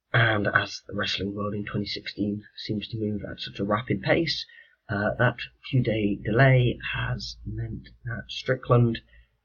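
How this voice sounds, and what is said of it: Sick-sounding voice. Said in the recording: “As you may be able to tell from my voice right now, I was not particularly well”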